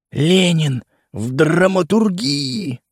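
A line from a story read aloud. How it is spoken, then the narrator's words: Loud whisper. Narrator (Russian): зашептал я громко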